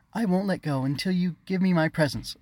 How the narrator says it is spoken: she exclaimed

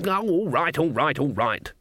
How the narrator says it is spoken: she snapped

